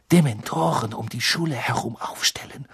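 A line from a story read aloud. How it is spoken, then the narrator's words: Murmuring. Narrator (German): murmelte sie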